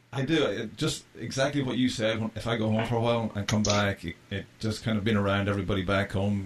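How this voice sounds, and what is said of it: Irish accent. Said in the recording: “Nah, you still got an Irish accent.”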